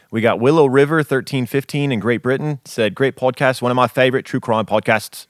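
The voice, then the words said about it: Put-on British accent sounding Australian. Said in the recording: “I think I was a little bit more Australian. ... it's a fine line for you ... We're out of practice ... we got to break in those accents again”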